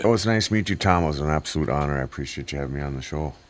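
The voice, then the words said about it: Low, deep radio voice. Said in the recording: “got a pretty good radio voice ... you got a voice for radio ... it's that low voice”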